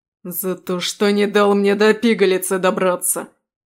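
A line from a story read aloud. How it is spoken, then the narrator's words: Growling fighter. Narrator (Russian): прорычал боевик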